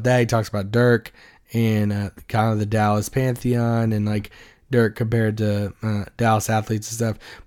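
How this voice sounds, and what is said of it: Raspy, low strained voice. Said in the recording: “my voice is still going bad ... You got the dulcet tones of they're like raspy and low”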